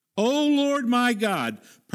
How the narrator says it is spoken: he cried to the Lord

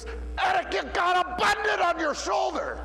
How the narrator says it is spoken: one of the defenders yells real loud, he goes

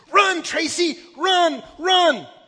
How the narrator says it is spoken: all of us, we stood and screamed

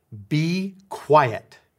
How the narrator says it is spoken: said sternly

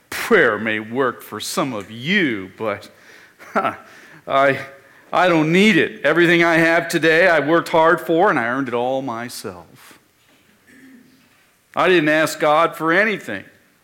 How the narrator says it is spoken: the man of great means proclaimed with a sneer

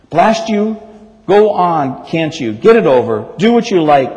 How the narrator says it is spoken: bellowed the ghost

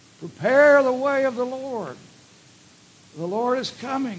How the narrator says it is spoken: He cried

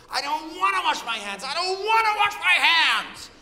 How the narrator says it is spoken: the girl screaming to her mother

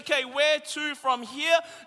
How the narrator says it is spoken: Jesus says loudly and clearly

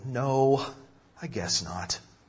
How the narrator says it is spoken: The Lord sighed and said

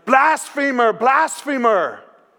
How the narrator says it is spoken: yelling

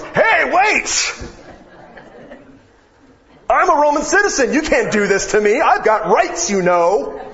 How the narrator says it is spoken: I'm being beaten, and I'm saying at the top of my lungs

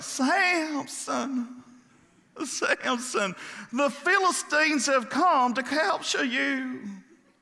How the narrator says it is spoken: Delilah again cried out

